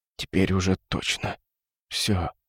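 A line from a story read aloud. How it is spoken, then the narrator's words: Doomed mutter. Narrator (Russian): обреченно пробормотал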